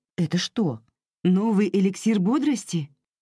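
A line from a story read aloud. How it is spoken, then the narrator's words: Plain question. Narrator (Russian): спросила Пламина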